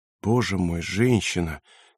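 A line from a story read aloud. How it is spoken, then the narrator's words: Quiet moan. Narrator (Russian): тихо простонала Аглая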